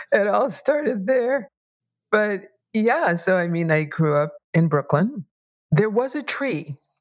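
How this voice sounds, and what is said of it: New York accent. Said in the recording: “you're a native New Yorker, because there's something in what you said that I thought, there's that accent”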